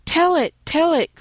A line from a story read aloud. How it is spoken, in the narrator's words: cried the boys